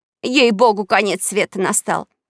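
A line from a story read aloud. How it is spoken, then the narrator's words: Woman shouting. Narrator (Russian): крикнула тетенька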